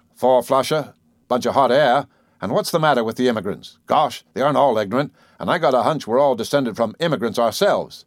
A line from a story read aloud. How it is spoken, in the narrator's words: the disaffected Babbitt grumbled